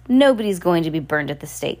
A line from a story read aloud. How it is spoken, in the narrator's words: he said firmly